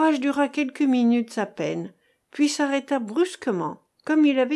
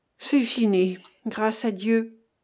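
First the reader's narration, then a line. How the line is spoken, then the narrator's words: Pastor sighing. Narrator (French): soupira le pasteur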